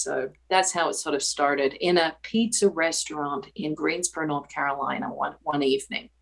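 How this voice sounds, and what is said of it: Speaks with an accent. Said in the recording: “I have an accent ... he told me something about my accent”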